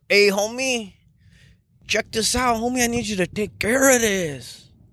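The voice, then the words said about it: Put-on Mexican accent. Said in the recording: “I love doing a Mexican accent.”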